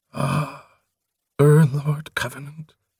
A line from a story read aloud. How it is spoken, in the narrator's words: Prothol sighed